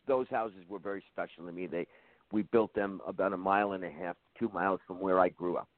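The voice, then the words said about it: Bronx New York accent. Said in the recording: “I'm from the Bronx. I'm from New York. I don't know if you can tell from my accent”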